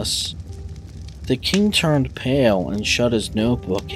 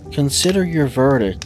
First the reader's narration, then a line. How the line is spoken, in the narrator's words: he said to the jury in a low, trembling voice